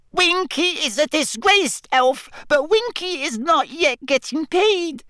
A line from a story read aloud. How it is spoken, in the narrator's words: she squeaked